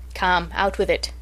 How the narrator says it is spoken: said the doctor

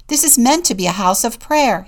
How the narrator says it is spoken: shouted

